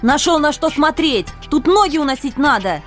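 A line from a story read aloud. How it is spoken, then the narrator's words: Angry embarrassed yelling. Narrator (Russian): Чтобы скрыть смущение, я рассерженно заорала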